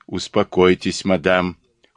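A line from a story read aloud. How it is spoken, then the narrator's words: Cold interruption. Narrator (Russian): холодно прервал ее Жиро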